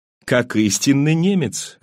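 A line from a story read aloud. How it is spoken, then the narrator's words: Laughing. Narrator (Russian): рассмеялся я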